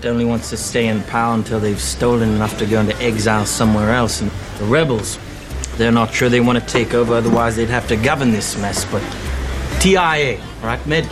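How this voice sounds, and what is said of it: Weak South African accent, Australian-sounding. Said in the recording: “It wasn't good. It sounded like a South African who's lived in Australia. ... For many years. ... way more Australian than South African.”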